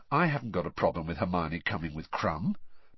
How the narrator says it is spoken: said Harry quietly

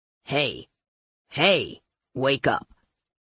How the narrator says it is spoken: I grumbled

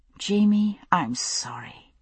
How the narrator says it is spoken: I said softly

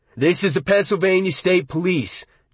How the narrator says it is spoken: Junkins cried into the loudhailer

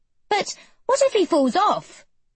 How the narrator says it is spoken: queries Anna anxiously

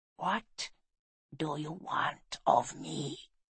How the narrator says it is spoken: she asked, her voice a sibilant hiss

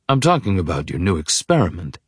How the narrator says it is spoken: he says coolly

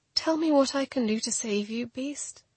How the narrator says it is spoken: I whispered

